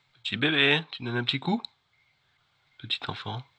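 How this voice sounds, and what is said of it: Whispering. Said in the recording (French): “je chuchote ... Chuchote.”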